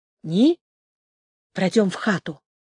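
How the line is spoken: Hoarse, dejected. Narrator (Russian): хрипло сказал Валько, подавленный тем, что он должен был сказать ей

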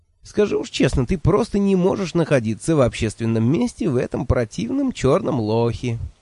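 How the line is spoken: Snide interjection. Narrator (Russian): ехидно вставил я

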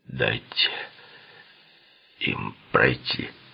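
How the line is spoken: Muffled commanding voice. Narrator (Russian): Глухим голосом Литти приказал

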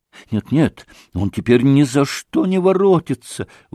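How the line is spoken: Sorrowful exclamation. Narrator (Russian): воскликнул он опять в горестном озарении

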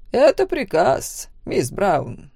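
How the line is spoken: Quiet, insinuating. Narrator (Russian): тихо, вкрадчиво произнес главный дознаватель

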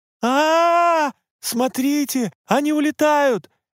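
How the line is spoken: Sudden shout. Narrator (Russian): неожиданно закричал Кацураги

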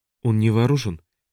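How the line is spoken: Quiet. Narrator (Russian): тихо проговорила Вальёва

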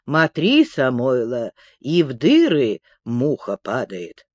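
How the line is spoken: Grumbled. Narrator (Russian): проворчал он

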